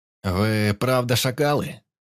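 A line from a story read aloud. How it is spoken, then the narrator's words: Menacing question, bearded man. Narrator (Russian): Грозно нахмурившись, спросил бородатый мужик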